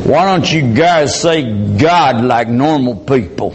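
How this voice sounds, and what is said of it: Put-on Texan accent. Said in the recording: “that was, of course, in Texas. You could tell by the accent”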